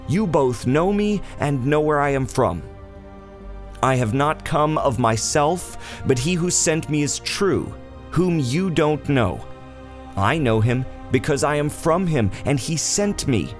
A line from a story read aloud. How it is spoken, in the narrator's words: Jesus therefore cried out in the temple, teaching and saying